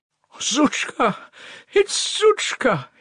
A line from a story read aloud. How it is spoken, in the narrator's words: he cried in a blissful voice